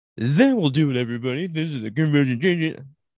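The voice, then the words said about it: Imitates another person's voice, poorly. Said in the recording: “Sound like a real asshole. ... I can't do a good impression of you.”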